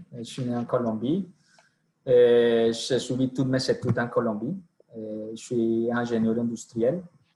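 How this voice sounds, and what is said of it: Colombian accent speaking French. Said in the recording (French): “pour mon accent, je suis colombien”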